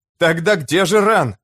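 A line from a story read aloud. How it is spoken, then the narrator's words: Exasperated shout. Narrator (Russian): не выдержав, закричал Том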